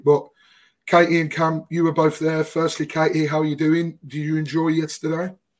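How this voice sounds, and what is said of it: Strained, worn-out voice. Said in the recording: “Hopefully my voice holds out. As you can tell ... my voice has taken an absolute battering thanks to it”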